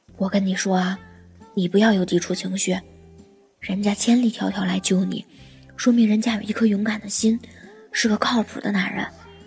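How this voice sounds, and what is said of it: Quiet, hushed whispering voice. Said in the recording (Chinese): “在她耳边小声的做思想工作”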